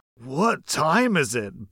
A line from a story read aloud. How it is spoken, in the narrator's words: Bob groaned